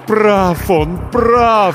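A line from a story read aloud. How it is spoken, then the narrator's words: Moaning heart. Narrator (Russian): стонало покойное сердце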